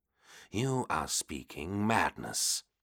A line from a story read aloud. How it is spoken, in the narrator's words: Horus growled now